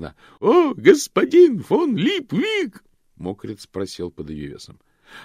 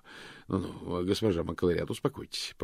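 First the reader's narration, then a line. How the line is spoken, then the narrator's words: Muttered. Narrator (Russian): пробормотал он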